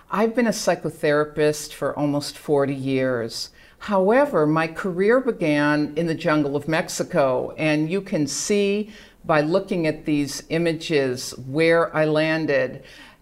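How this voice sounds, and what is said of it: Slight Boston accent. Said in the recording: “You can hear a little bit of my Boston accent”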